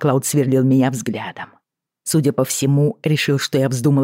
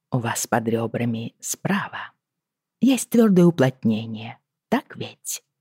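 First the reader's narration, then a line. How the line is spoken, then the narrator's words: Gentle question. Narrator (Russian): ласково спросила я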